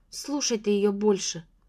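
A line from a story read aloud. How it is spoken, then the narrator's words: Irritated interruption. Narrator (Russian): раздраженно перебила я сестру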